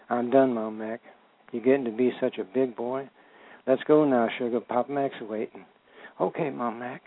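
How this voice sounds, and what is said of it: Kentucky-style dialect in reading. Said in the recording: “Enjoyed the dialect in it. ... that's where I'm from. I was born in Kentucky and raised in Detroit.”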